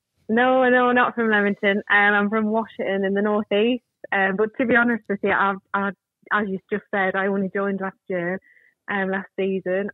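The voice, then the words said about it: Northern English accent. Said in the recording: “we can hear a little bit of a northern twang there”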